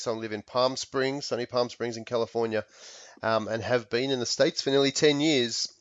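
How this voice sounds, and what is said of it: Australian accent. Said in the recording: “my accent is ... I'm from Australia”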